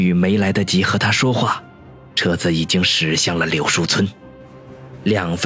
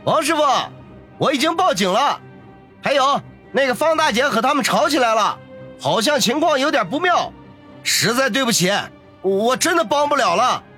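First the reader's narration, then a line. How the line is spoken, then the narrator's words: Loud shout. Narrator (Chinese): 李师傅大声的喊道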